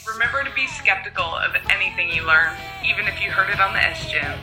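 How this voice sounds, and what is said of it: Southern US accent. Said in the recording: “you've got that great Southern accent”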